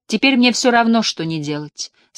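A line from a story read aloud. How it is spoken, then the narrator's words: Very gloomy. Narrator (Russian): сказала Мэриан, настроенная очень мрачно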